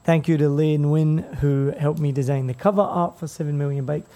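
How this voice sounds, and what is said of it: Raspy, hoarse voice. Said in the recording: “I'm still got a bit of a raspy voice, recovering, trying to get over my nodules”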